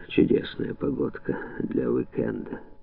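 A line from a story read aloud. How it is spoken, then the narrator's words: Grumbled. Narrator (Russian): Он буркнул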